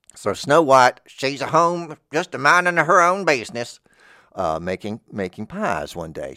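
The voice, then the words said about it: Country bumpkin voice. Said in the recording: “my country bumpkin impression of Snow White”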